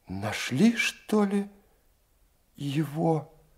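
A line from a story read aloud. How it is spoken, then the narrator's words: Timid question. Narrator (Russian): Робко спросила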